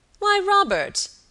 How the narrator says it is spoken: exclaimed Sir Michael

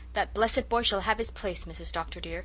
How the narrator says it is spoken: said Susan firmly

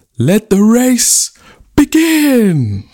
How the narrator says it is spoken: The chief took a deep breath and cried out

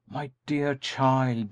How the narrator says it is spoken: he exclaimed

